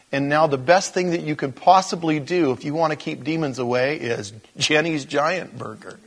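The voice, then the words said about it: Skeptical, mocking tone. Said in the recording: “as you can tell by my tone, I don't really buy it.”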